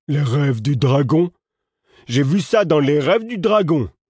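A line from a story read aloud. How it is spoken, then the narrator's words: Exclaiming. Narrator (French): s'exclama-t-il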